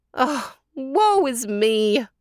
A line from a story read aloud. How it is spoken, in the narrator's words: wailed Tanta Adela